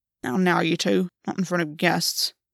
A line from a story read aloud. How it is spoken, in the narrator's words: Ash muttered